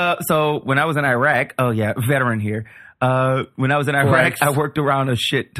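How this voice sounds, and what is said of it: Usual voice. Nothing is said of it.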